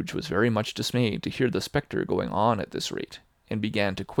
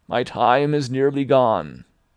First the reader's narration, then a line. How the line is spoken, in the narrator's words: cried the ghost